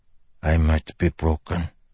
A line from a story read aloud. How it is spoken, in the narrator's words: the man said softly